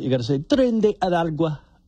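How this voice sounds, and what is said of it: Attempted Spanish accent on phrase. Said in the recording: “you have to attempt a very good Spanish accent with tren de aragua. I can't do it.”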